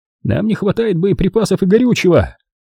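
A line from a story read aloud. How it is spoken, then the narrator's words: Shout. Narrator (Russian): крикнул кто-то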